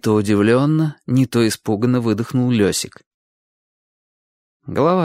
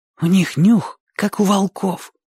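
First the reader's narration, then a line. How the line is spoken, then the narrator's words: Whisper. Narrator (Russian): сказал Оник шепотом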